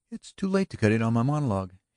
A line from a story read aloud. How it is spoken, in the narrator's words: cried gaily